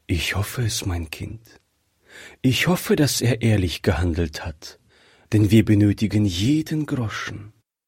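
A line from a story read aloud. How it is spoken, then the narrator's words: Sighing. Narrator (German): sagte die Mutter seufzend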